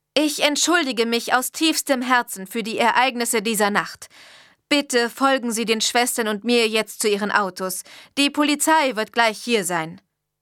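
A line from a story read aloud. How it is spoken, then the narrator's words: Loud. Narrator (German): sagte laut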